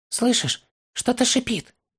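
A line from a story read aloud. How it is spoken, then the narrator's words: Whispered. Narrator (Russian): шепотом сказал он Торину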